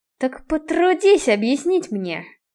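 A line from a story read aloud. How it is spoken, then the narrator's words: Through clenched teeth. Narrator (Russian): процедил сквозь сжатые зубы Киган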